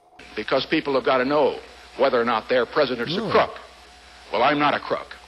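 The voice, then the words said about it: Uncanny Nixon impression. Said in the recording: “my Nixon impression ... that's uncanny”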